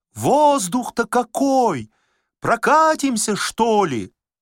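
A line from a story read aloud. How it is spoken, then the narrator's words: Shouting. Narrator (Russian): кричал в окна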